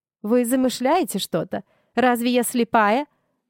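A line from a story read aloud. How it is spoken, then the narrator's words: Loud declaration. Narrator (Russian): громко заявила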